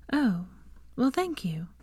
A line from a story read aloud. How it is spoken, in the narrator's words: She flushed, saying softly